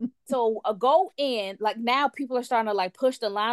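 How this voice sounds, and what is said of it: Usual voice. Nothing is said of it.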